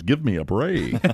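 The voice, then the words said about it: George Lopez, Hispanic accent. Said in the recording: “with a Hispanic accent, he says”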